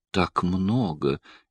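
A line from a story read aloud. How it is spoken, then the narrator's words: Barely audible protest. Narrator (Russian): еле слышно запротестовала Слайть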